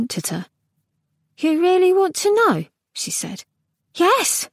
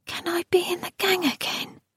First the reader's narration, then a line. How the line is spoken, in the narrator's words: She whispered